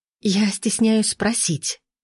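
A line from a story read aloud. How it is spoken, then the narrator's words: Hissed. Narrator (Russian): прошипела Лина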